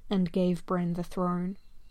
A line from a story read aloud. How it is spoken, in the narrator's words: he sighs